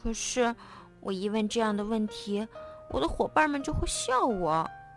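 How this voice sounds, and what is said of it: Speaking softly, quiet voice. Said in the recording (Chinese): “小声说”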